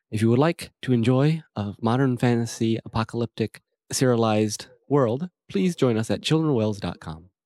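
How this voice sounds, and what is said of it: Smooth public radio announcer voice. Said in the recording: “Very nice NPR voice... I like to bring up my NPR every once in a while”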